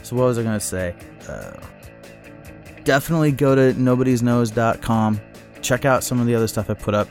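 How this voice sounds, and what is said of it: Tired, run-down voice. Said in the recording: “I'm recording this late at night... I'm running down. I don't know if you can hear it in my voice.”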